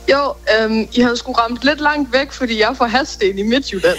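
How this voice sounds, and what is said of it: Copenhagen Danish accent, not Jutlandic. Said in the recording (Danish): “Hvorfor lyder du ikke mere jysk? ... sådan fået en københavnsk accent”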